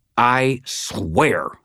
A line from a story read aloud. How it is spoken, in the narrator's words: snarled